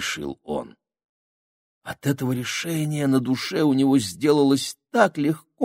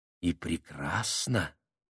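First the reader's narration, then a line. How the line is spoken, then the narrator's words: Soft, tender. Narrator (Russian): сказал как-то особенно мягко и ласково Семен Трофимович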